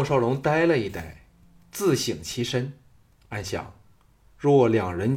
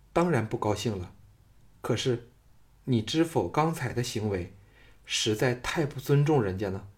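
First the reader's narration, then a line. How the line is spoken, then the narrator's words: Flat, indifferent. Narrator (Chinese): 秦青淡淡的说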